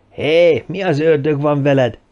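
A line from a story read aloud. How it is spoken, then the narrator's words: Shouting. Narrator (Hungarian): ütötte meg a fülét Reese kiáltása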